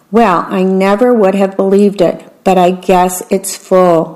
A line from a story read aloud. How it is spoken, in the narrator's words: Mama said